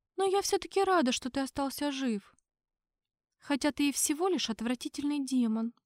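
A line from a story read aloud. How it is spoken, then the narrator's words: Quiet. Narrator (Russian): Она тихо произнесла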